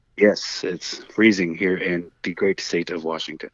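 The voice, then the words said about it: Put-on deep sexy voice. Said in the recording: “sexy voice ... I had to go deep voice for that one.”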